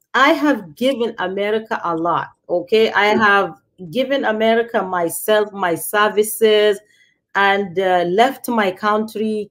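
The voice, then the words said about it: Nigerian-accented English. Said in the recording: “I left Nigeria when I was 17 ... the one thing I am not going to even try to give is my accent ... Once I open my mouth ... they'll be like, Where are you from?”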